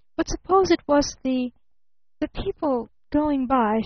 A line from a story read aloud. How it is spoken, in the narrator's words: she faltered